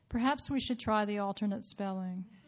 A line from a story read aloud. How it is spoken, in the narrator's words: I answered very quietly after a moment